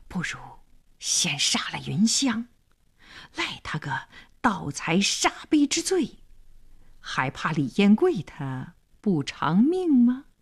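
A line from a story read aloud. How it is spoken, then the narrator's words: Menacing whisper. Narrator (Chinese): 黄良眼里闪着凶光，小声说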